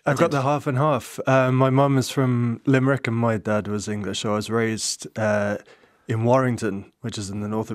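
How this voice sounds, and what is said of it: English accent with Irish vowels. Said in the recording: “you have a lovely English accent with some Irish vowels ... my accent is probably morphing somewhere along the way”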